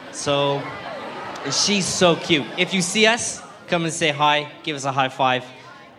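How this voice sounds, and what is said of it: Speaks with a noticeable accent. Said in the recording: “I have a funny accent.”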